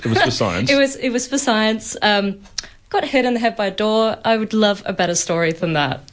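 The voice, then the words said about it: British accent. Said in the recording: “We didn't knock the accent out of you? ... Didn't knock the accent out, still sounding British.”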